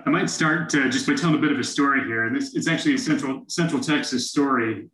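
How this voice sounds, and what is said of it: Texas accent. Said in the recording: “Austin, Texas ... Okay, I can understand your accent then”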